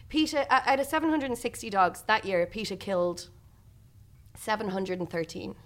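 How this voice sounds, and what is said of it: Serious, grave tone of voice. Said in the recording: “this is my serious voice”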